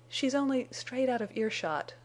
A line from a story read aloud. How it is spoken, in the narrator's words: faltered Jane